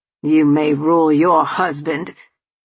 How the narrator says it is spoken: Charles snarled

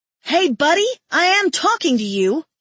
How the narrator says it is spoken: the woman yells at my mate

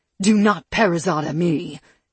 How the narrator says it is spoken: she snapped at her mate

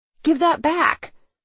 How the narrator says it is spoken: I exclaimed

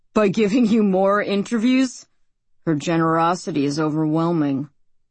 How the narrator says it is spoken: his voice is bitter when he says

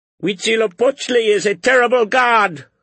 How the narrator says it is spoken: cried one of them

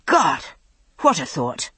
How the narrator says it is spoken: he said, gasping

